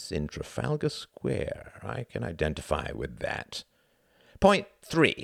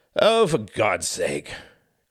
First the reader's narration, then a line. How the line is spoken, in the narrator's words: grunted Cuthbert